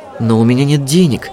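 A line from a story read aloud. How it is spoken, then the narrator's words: Confused mutter. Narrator (Russian): растерянно пробормотала Жасмин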